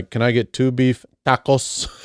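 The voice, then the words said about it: Exaggerated dialect on one word. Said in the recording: “you do your very, very best to add the proper dialect to any word that you feel necessary to add a dialect to ... Like just that one word.”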